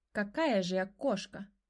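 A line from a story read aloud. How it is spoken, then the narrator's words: Displeased growling answer. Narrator (Russian): ответила та и даже недовольно рыкнула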